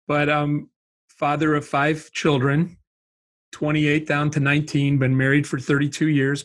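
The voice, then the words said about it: Wisconsin accent. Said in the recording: “I grew up in Wisconsin, so that's the accent.”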